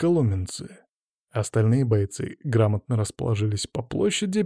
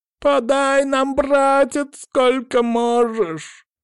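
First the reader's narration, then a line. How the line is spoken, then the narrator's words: Sudden ringing yell. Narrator (Russian): Вдруг заорал крепыш звонким голосом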